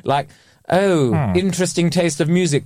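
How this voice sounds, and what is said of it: Sneery put-on posh accent. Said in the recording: “Just said it in that posh accent ... Anything said in that posh accent ... that little sneery, how interesting”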